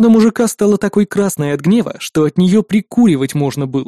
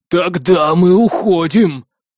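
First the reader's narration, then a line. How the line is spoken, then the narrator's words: Growled. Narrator (Russian): прорычал он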